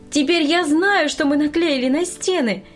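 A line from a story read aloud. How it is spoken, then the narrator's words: Joyful greeting. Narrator (Russian): радостно встретила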